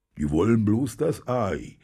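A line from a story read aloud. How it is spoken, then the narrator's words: Growl. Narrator (German): knurrte Krittel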